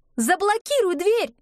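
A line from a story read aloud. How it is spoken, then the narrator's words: Shout. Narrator (Russian): закричала Нина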